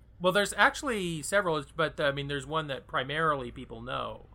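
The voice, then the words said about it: Nasal plugged-nose character voice. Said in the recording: “Is this a character that you plug your nose?”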